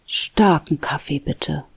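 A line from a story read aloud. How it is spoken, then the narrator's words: Murmur. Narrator (German): murmelte sie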